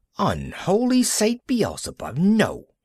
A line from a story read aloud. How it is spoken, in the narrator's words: he cried